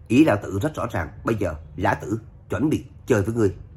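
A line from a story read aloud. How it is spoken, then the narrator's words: Cold, after loud laughter. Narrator (Vietnamese): cười ha hả, lạnh lùng nói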